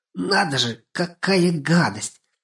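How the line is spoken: Muttered. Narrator (Russian): пробормотала она

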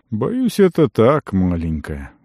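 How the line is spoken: Wizard sighing. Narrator (Russian): вздохнул маг

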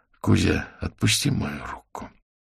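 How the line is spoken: Quiet request. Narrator (Russian): Аверин тихонько попросил

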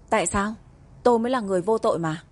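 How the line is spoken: Bold fearless speech. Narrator (Vietnamese): Trương Nhất Manh ưỡn ngực, không sợ hãi nói

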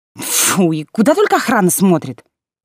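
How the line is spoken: Scornful snort. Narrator (Russian): фыркнула Лера

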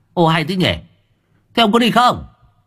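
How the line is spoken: Irritated snap. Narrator (Vietnamese): Cậu gắt

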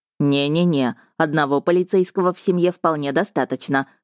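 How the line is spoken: Snorting. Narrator (Russian): хмыкнул брат

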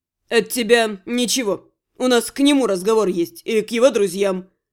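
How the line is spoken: Snorting. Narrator (Russian): хмыкнул вор

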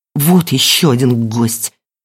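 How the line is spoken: Through clenched teeth. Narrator (Russian): проговорила Эльвира сквозь зубы

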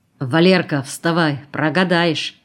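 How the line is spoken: Stern. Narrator (Russian): сказал он строго

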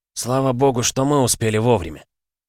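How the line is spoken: Grim. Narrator (Russian): мрачно сказал Валера

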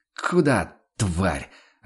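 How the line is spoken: Fierce hiss. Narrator (Russian): ожесточенно прошипел Ваналин

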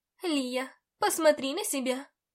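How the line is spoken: Exclaiming. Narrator (Russian): воскликнула мама

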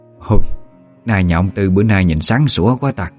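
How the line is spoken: Soft admiring murmur. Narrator (Vietnamese): thầm khẽ cảm thán

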